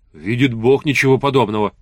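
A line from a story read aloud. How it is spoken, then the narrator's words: Hasty heartfelt exclamation. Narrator (Russian): поспешно и с чувством воскликнул Сван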